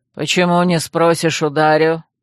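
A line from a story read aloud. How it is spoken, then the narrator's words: Snort. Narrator (Russian): хмыкнул представитель оборотней рептилий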